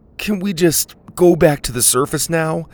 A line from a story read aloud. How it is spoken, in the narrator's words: Dylan begged